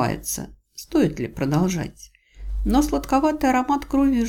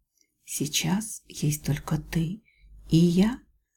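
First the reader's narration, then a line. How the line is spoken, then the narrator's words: Whisper. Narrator (Russian): прошептала я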